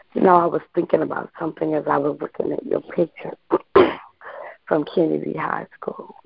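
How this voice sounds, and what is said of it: Raspy, cracking voice. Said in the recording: “I got the little raspy crack in my.”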